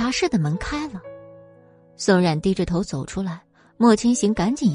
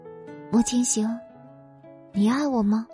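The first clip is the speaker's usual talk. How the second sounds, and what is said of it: Soft, quiet voice. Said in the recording (Chinese): “小声说道”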